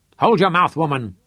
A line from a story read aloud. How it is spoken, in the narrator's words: shouted at her